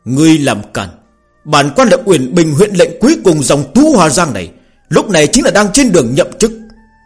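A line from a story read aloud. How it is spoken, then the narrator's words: Loud shout. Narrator (Vietnamese): Nam nhân hét to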